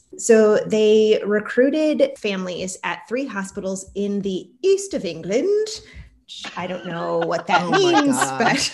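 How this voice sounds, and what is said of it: Put-on British accent, very accurate. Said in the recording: “please do the rest of the segment in that accent ... my accent is way too accurate ... are they from the UK?”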